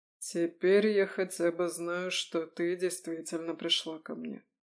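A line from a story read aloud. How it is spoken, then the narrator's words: Dull, muffled voice. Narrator (Russian): глухо выговорил Нестор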